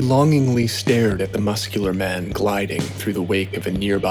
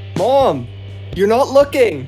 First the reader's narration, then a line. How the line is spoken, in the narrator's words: He shouted